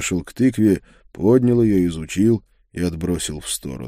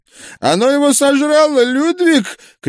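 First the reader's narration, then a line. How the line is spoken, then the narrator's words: Shout from behind bushes. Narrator (Russian): крикнул проповедник из-за кустов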